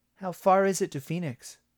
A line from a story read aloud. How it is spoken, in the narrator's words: Ben asked